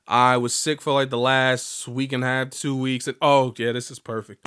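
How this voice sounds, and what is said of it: Slightly sick-sounding voice. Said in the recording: “still hearing my voice is slightly different because I'm still, you know, I'm on the mend.”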